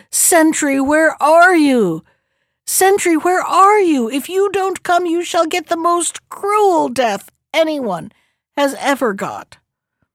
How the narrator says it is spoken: It shrieked and howled

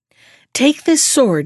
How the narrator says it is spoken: said

